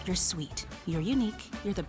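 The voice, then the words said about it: Whispering. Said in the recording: “whispering”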